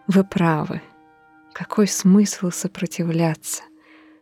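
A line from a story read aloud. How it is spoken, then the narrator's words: Quiet. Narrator (Russian): сказала она тихо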